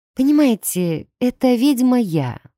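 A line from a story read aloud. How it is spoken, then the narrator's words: Sighing confession. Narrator (Russian): вздохнув, призналась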